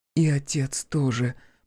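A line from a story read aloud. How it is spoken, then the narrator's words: Almost a whisper. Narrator (Russian): почти шепотом добавила Василиса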